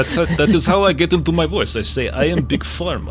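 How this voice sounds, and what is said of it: Usual voice. Nothing is said of it.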